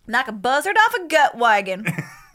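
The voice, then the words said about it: Put-on Southern US accent. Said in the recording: “if you're going to go southern, say buzzard... If you're going to put an accent buzzard. On it, say, yeah... Yeah, that's nice.”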